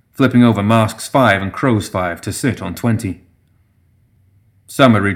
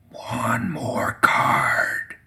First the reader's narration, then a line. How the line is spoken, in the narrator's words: the brewmaster whispered in his ear